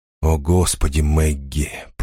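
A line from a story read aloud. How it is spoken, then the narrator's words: Despairing groan. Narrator (Russian): простонал он, когда она подхватила еще и коклюш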